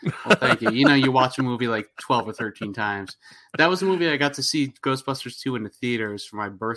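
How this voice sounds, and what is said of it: Usual voice. Nothing is said of it.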